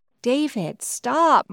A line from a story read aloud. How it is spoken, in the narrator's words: Mom begged